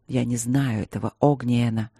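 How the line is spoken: Soft with a warning edge. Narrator (Russian): мягко ответил он, но в голосе его слышалось предупреждение

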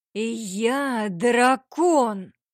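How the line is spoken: Thunderous roar. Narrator (Russian): Прорычал он так, что стены спальни и потолок слегка задрожали

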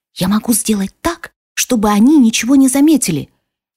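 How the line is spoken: Rapid whisper. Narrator (Russian): быстро скороговоркой прошептал

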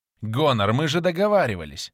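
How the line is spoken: Angry interruption. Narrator (Russian): Дар сердито перебил клирика

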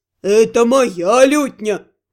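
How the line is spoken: Deep booming voice. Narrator (Russian): басил Наталь

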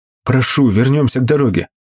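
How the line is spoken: Pleading. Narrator (Russian): взмолился я

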